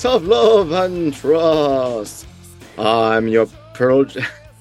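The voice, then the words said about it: Mock Dracula Transylvanian accent. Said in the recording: “Dracula voice. That was your best Transylvania accent ... Less Transylvania, more Pennsylvania”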